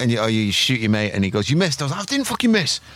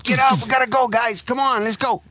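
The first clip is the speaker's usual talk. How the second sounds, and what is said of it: Put-on American accent. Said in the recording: “American accent, man.”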